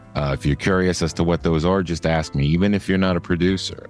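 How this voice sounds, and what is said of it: Very fast speech. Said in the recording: “sorry I'm talking so fast. I just had a big cup of coffee.”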